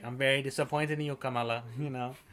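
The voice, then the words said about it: Put-on accent. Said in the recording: “Good accent”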